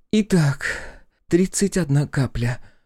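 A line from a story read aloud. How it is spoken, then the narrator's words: Breathed out. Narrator (Russian): выдохнула Василиса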